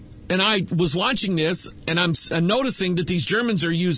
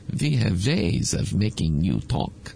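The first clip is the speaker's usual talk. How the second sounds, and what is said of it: Mock German accent. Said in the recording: “Of course, they were saying it with a German accent.”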